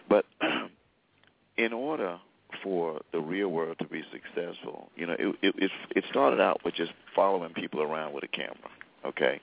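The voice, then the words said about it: Congested, sinus-affected voice. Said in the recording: “excuse my voice, I'm recovering from some kind of sinus thing going on.”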